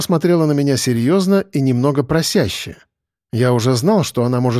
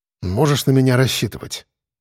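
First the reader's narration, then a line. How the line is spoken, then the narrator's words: Amused snort. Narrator (Russian): хмыкнул я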